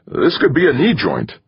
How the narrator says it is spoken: Carlton would exclaim

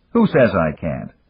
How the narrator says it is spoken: Dan snapped

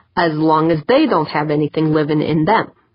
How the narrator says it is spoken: Tavalera said, almost in a grumble

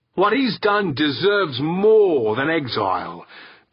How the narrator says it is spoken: Big George's voice boomed

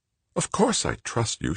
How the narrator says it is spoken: she blurted

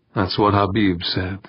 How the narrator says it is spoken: Urbaine muttered

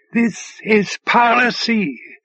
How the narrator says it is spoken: hollered

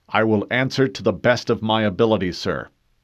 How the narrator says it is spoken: replied stiffly

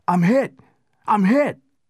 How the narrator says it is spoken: He shouted

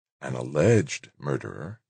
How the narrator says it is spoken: she said coolly

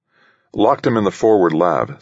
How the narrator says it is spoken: said the colonel

